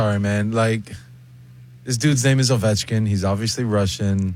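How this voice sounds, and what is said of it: Usual voice. Nothing is said of it.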